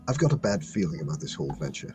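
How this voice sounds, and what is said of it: Quiet whisper, hard to hear. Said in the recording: “you're kind of quiet... I was whispering... It was like really hard to hear with your whisper.”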